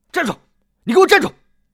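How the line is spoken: Stunned then shouting. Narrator (Chinese): 包康愣了愣，张口大喊

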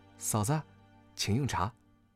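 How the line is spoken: Gentle, soft. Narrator (Chinese): 柔声道

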